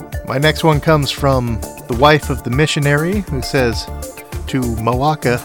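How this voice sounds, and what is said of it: Usual voice. Nothing is said of it.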